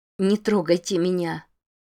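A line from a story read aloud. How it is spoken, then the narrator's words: Trembling, unlike usual calm. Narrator (Russian): произнесла она дрожащим голосом, совершенно не похожим на ее обычный спокойный и властный тон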